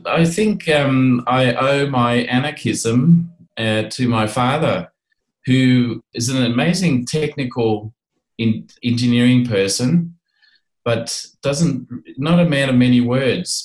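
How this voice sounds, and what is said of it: Australian accent. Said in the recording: “you've got the Australian accent”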